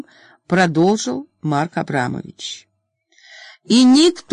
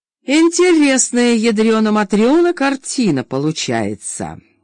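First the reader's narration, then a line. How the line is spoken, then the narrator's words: Snide remark. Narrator (Russian): ехидно заметил Воронцов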